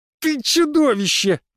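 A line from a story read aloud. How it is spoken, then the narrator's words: Howl. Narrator (Russian): взвыл Леон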